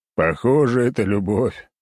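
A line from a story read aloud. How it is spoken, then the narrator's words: Big man's loud laughter. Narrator (Russian): расхохотался здоровяк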